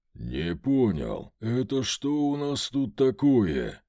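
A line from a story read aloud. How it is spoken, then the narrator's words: Thundering voice in head. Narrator (Russian): Прогремело у меня в голове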